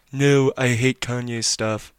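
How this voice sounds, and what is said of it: Imitates another person's voice. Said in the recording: “in a Donald Trump voice”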